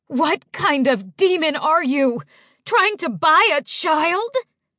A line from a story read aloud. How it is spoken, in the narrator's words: Mama screeched